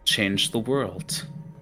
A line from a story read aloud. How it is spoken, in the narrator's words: he mumbles